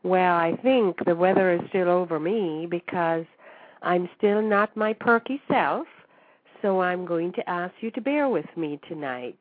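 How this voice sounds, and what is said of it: Raspy voice. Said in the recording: “I must apologize for my raspy voice ... I told you that I was a little under the weather”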